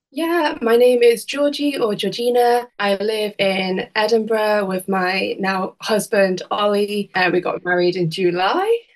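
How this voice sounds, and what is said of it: Mixed northern English accent. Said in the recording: “Do I detect a bit of a northern accent? ... I think I've got a bit of a strange accent. I was born in the West Midlands ... we moved to the Isle of Man ... it's a really kind of unusual accent, which has got bits of like Scouse, possibly a bit of Irish. It's kind of like all mixed in”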